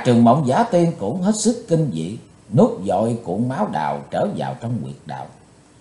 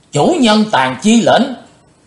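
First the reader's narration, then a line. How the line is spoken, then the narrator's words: Crowd shouting in unison. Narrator (Vietnamese): Đến gần 200 cao thủ đồng thanh quát lớn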